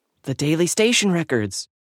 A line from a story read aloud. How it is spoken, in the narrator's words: Ada excitedly whispered